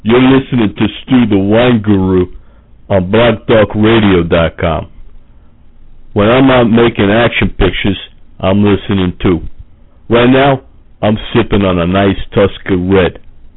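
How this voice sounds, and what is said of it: Sylvester Stallone impression. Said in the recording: “Hey, this is Sly Stallone ... only celebrity impersonators”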